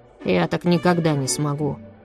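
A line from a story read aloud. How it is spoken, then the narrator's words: Dejected objection. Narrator (Russian): уныло возразил Миша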